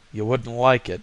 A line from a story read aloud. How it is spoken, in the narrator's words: muttered Voorhis, staring sourly